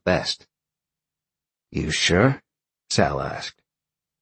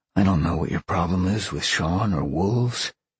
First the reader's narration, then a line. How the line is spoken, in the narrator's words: whispered in his ear